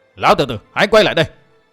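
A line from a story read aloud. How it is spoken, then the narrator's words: Shout. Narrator (Vietnamese): Gã quát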